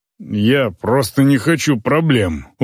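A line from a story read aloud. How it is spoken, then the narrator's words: Sullen mutter. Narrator (Russian): угрюмо пробормотал он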